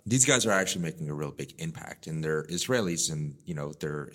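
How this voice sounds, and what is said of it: Speaks with a non-native accent. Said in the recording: “It's my accent”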